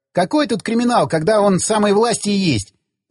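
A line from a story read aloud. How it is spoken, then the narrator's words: Laughing. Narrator (Russian): засмеялся Федька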